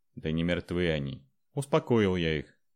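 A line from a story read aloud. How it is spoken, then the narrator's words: Annoyed snort. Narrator (Russian): досадливо хмыкнул Андрей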